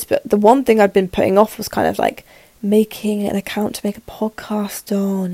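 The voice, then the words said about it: Voice a bit off, speaking fast. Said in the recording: “my voice is a little bit which you can probably hear ... sore throat, fatigue ... I'm speaking very fast”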